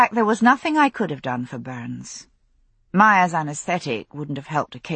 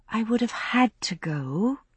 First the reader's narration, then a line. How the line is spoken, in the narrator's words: I said more gently